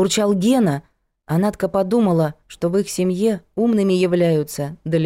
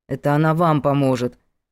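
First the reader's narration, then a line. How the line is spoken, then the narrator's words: Grumbling. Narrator (Russian): проворчал Гена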